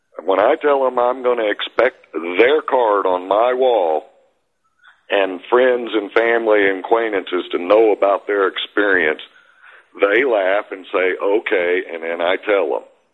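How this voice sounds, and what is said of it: North Alabama accent. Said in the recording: “that is a northern accent, North Alabama”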